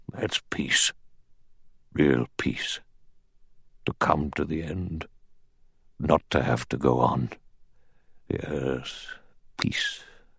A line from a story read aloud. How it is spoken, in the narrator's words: he said in a low, strange voice